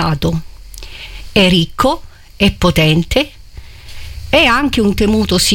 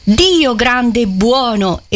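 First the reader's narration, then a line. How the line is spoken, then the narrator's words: Cardinal's exclamation. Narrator (Italian): esclamò Federico, il cardinale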